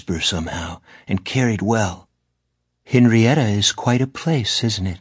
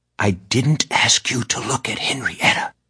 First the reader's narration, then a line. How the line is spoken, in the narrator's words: Mora replied in a stage whisper